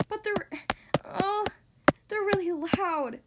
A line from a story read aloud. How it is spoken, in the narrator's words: said nervously